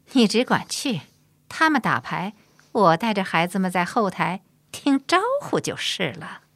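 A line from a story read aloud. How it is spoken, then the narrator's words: Laughing. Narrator (Chinese): 葛氏却有点厌这个色中恶鬼高恒，笑着说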